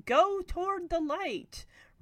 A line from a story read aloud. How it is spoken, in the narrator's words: Zelda Rubinstein shooting out of a chimney shouting